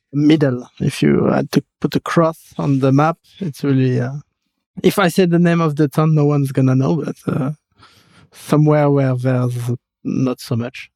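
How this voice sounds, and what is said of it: French accent. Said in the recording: “I'm French. I've got this terrible accent that everyone can notice”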